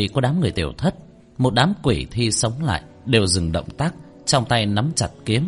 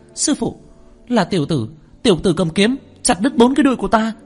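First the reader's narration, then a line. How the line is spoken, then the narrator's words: Shrill female scream. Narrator (Vietnamese): Nữ tử đông doanh tiếng hét chói tai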